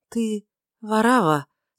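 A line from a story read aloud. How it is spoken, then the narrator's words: Anxious voice. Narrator (Russian): сказала тревожным голосом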